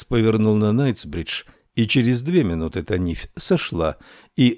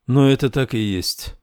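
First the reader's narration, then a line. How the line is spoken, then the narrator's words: Sad assurance, girl. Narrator (Russian): печально заверила девушка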